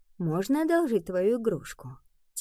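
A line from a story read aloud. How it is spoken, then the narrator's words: Quiet question. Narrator (Russian): тихо спросила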